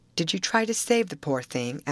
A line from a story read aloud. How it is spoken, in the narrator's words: asked Laura earnestly